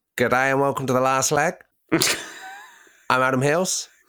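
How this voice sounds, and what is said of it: Aussie accent impression of Adam Hills. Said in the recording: “Go and do an Aussie accent. You can do it, can't you?”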